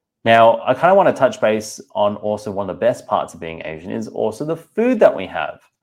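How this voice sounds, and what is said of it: Australian accent. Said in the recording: “I'm from Singapore, born in Australia, as you can tell from the accent”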